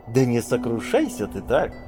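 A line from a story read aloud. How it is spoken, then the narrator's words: Cheerful. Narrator (Russian): весело произнес Аджанаро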